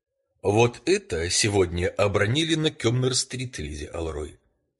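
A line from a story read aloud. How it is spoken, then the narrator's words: Calm. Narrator (Russian): сказал я совсем спокойно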